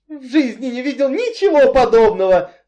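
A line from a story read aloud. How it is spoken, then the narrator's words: Squealed. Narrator (Russian): взвизгнул Энси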